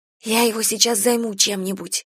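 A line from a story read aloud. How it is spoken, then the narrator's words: Whispered. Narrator (Russian): шепнула Кира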